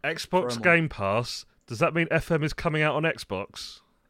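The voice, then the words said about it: Funny put-on character voice. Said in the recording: “Why did you put a funny voice? ... Because I'm like being a Norman.”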